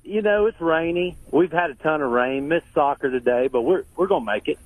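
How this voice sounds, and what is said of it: Southern American accent. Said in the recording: “I love your accent ... Southern charm”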